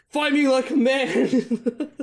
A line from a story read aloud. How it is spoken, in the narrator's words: just yells